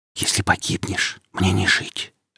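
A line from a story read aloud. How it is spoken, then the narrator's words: Girl whispering. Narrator (Russian): сказала девушка шепотом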